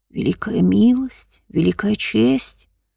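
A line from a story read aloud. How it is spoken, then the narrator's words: Insinuating whisper. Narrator (Russian): прошептал знакомый вкрадчивый голос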